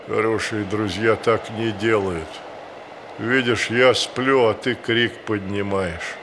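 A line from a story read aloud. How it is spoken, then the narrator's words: Sleepy bear voice. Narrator (Russian): Медведь сонным голосом говорит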